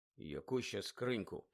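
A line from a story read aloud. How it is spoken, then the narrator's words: Muttered. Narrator (Ukrainian): пробурмотів Гаррі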